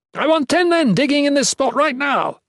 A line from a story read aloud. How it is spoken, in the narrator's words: the padre shouted